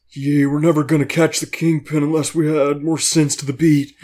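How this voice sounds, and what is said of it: Nicolas Cage impression. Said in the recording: “you can do it better in your Nick Cage voice”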